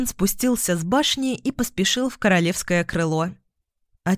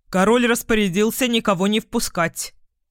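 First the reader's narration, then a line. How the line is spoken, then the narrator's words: Stern. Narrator (Russian): строго сказал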